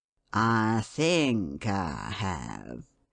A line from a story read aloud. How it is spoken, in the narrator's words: he drawled out